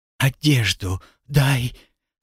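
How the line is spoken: Hoarse request. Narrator (Russian): сорванным голосом попросила Виктория

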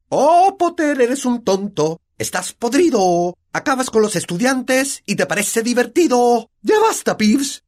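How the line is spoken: Shouted. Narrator (Spanish): gritó la profesora McGonagall

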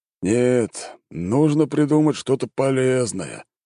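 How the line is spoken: Sighing. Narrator (Russian): вздохнул Гагарин-старший

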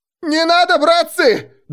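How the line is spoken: Wild yell. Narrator (Russian): дурно заорал я

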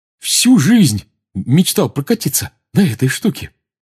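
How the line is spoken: Said happily. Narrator (Russian): радостно сказал Рон

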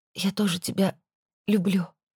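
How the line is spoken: Faltering sobbing reply. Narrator (Russian): запнувшись, со всхлипом ответила я

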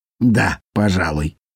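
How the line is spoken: Muttered. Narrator (Russian): пробормотал иллюстратор

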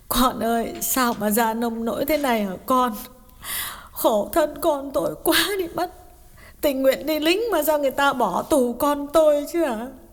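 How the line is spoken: Mother's tearful question. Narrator (Vietnamese): Bà mẹ mếu máo hỏi

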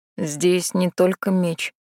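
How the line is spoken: Quiet. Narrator (Russian): тихо проговорил Юншен

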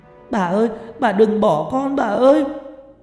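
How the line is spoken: Wailing, loud sobbing call. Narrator (Vietnamese): Không kìm nén được cảm xúc, chị Kim gào khóc gọi lớn

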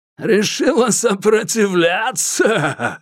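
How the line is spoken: Loud laughter. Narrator (Russian): Шамиль захохотал

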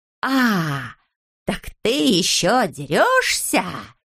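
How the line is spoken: Hoarse. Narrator (Russian): захрипел Знайка

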